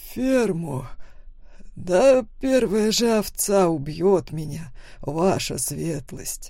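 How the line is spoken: Laughing. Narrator (Russian): хохотнул Лоренцо

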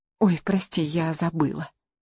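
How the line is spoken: Whisper. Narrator (Russian): шепнула Венделла

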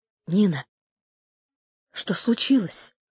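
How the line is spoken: Quiet question. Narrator (Russian): тихо спросила Уля

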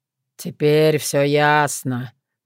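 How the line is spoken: Grumbling voice. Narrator (Russian): проворчал уже знакомый голос

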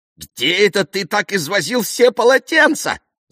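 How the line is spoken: Shouting. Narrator (Russian): закричала она

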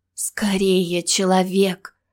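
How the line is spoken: Pleading moan. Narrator (Russian): простонала призывно

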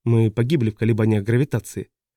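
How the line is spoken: Completely calm. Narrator (Russian): совершенно спокойно продолжала Паскаль

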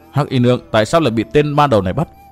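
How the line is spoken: Muttering. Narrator (Vietnamese): Chàng lẩm bẩm

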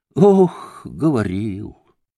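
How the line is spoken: Sighing. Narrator (Russian): вздохнула Грушенька

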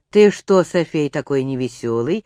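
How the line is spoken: Tsar's gentle question. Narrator (Russian): ласково спросил царь

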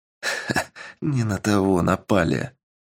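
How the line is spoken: Sinister muttering man. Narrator (Russian): пробормотал мужчина с жуткой улыбкой

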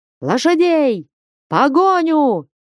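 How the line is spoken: Frantic shouting. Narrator (Russian): неистово кричал Потап Максимыч

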